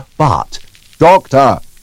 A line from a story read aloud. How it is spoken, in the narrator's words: cried the record